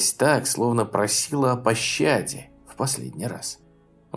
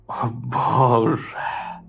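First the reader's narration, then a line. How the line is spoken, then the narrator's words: Ecstatic moan. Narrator (Russian): простонал он, в судорогах оргазма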